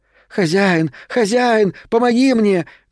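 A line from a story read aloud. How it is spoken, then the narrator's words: Shrill shouting. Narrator (Russian): кричала она тонким голосом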